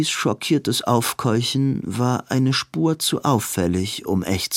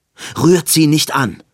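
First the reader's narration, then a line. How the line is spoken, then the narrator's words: Snarl. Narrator (German): fauchte Robin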